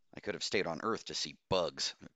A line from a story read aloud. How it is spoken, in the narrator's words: Bose grumbled